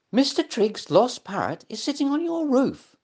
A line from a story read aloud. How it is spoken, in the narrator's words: squeaked